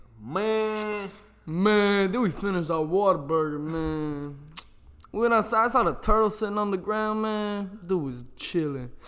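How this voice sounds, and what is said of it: Imitates another person's voice. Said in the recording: “Sound like Afro Man. ... No, this is Nate. ... That's kind of what Big Nate.”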